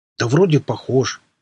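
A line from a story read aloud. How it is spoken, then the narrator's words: Uncertain reply. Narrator (Russian): неуверенно отозвался тот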